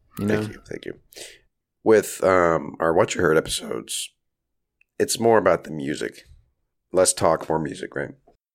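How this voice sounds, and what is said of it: Slightly raspy voice. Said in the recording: “my voice is a little raspy. I'm recovering from a cold”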